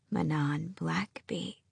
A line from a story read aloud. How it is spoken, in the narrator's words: she whispered in what might have been a drawl had her teeth not been broken, her throat ringed with bruises